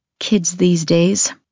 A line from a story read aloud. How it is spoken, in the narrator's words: I mutter